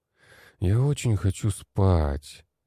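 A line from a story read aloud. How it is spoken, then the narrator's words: Groaning. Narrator (Russian): простонал я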